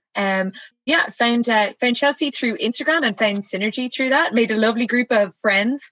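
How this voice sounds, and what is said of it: Irish accent. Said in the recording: “she actually is based in Ireland ... you guys are absolutely going to love her accent”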